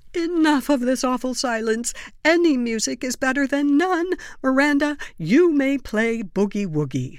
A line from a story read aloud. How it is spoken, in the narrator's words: Aunt Lorraine shouts